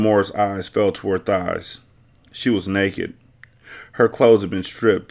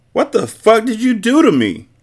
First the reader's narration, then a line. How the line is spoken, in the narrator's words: yelled